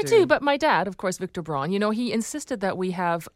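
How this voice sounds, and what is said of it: German accent. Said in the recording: “I do detect... your German accent”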